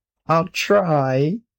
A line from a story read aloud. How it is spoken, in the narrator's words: said Maurice, miserably hoping for the best